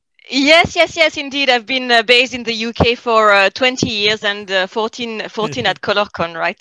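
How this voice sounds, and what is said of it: French accent. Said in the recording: “you have the French accent”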